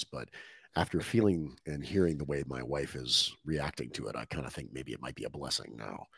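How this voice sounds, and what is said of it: Hoarse, nearly lost voice. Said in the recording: “It sounds like I'm doing a little bit better than you ... I ended up losing my voice”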